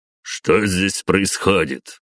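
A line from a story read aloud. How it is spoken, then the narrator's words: Cold question. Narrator (Russian): холодно уточнил начальник гвардейцев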